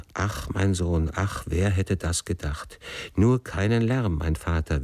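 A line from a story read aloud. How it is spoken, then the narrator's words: Repeated sighing. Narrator (German): seufzte er immer wieder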